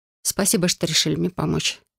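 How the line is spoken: Quiet reply. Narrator (Russian): тихо ответила я

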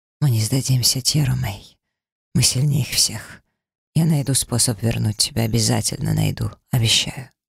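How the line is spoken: Whisper. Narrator (Russian): прошептав

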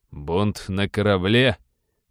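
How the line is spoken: Mocking question. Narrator (Russian): насмешливо уточнил помощник

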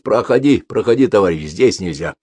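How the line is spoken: Angry. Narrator (Russian): Шишаков сердито произносит

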